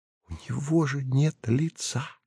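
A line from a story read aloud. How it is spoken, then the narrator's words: Whispered. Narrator (Russian): шепотом сказала Нава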